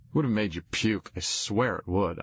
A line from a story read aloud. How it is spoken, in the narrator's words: said